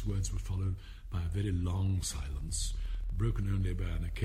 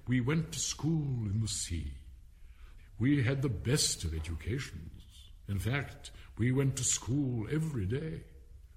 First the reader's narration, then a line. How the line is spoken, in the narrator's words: the Mock Turtle went on at last, more calmly, though sobbing a little now and then